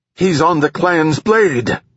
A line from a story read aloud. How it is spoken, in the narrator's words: Usa shouted